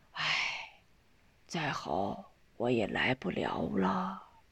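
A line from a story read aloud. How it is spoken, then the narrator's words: Sighing. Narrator (Chinese): 钱香老叹了口气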